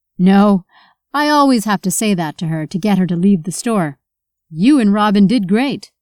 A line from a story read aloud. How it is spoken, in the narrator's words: Michael laughed as he said to Nathan